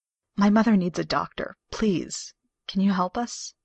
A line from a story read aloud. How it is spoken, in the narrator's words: Carolyn hears her voice break a little